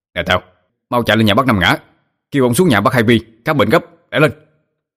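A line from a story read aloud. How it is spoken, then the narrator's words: Man shouting loudly. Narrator (Vietnamese): ông hét lớn lên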